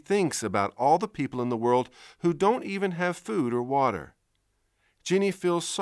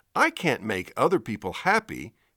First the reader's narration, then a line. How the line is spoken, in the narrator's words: he exclaims